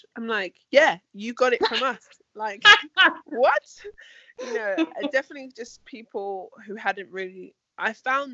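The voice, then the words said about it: London English accent. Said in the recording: “As a person from London with your accent”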